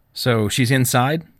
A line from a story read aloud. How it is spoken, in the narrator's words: Trenton asked